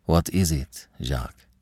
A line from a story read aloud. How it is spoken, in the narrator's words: Her voice was steady, now that the need for self-control seemed thrust upon her